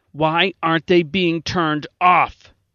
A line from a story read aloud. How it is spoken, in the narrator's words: Gelson demanded angrily